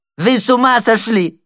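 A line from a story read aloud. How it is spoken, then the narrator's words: Shrill shout. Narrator (Russian): закричал он визгливым голосом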